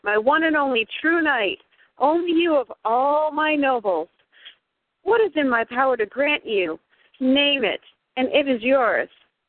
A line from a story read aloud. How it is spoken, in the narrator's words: King Arthur exclaimed